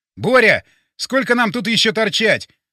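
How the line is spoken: Shout. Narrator (Russian): крикнул я

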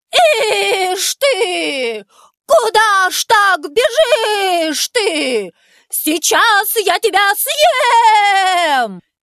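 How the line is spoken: Shouted. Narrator (Russian): крикнул конь пряничному человечку

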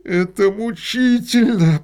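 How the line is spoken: Through clenched teeth. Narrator (Russian): процедил сквозь зубы художник

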